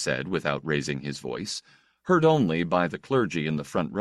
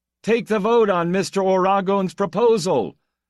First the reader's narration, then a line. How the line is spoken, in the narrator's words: Somebody called out